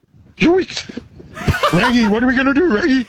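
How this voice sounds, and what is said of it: Scooby-Doo impression. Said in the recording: “maybe Shaggy from Scooby-Doo ... That's an impression ... I'll do a better Scooby ... go Scooby. Go Scooby.”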